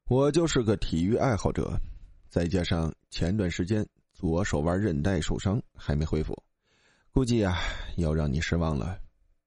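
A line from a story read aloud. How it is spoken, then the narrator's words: Flat, cool reply. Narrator (Chinese): 他不敢惹赞助商，淡淡的说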